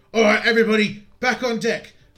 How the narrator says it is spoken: the captain yells out and says

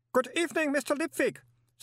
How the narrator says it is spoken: said the cheery voice of Otto Shriek

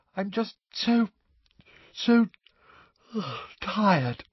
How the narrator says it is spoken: she yawned

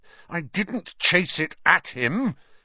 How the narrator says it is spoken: Harry said, his voice shaking with anger

